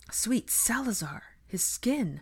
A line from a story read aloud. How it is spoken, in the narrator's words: Pansy exclaimed when she actually touched him